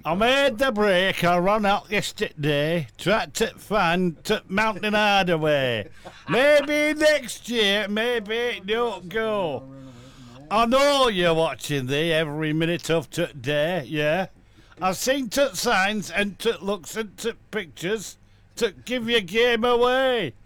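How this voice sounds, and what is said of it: Put-on northern English accent. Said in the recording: “Shall we do it in a northern accent this time?”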